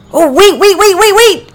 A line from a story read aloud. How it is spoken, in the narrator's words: Priscilla shouted